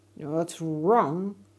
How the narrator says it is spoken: snapped the alligator so loudly

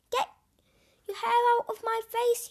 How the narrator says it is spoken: yelled

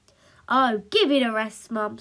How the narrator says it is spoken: snapped Punk

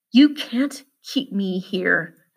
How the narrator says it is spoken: the walker hissed

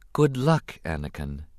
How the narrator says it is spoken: the Queen said softly

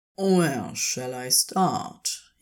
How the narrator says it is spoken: inquired softly

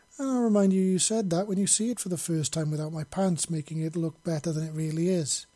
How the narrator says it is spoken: she said teasingly

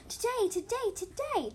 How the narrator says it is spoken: Ginger Kit squealed

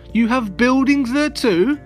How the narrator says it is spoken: Horton gasped

